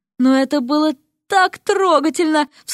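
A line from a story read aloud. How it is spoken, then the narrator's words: Sobbed. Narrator (Russian): всхлипнула другая преподавательница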